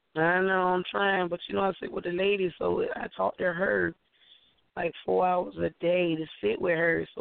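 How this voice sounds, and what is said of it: Weak, recovering hoarse voice. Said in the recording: “my voice is coming back slowly but surely”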